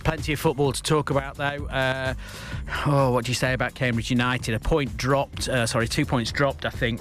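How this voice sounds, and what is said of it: Tired-sounding voice. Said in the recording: “Excuse me if I sound a bit tired. I've jet lagged from a trip back from the US.”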